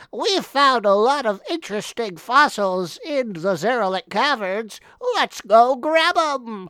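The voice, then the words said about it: Nerdy character voice. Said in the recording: “my nerd voice”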